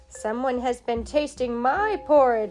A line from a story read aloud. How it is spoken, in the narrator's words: said the father bear in his great big voice